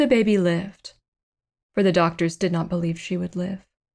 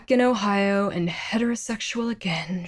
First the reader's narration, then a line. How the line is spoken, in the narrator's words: she sighed